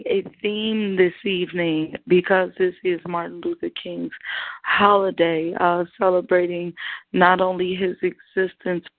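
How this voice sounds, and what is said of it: Hoarse voice. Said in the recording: “my hoarse voice”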